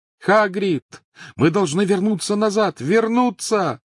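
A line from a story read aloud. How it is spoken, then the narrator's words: Shouting over engine roar. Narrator (Russian): крикнул сквозь громовой рев двигателя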